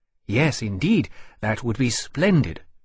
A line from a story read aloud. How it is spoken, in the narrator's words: Temeraire said eagerly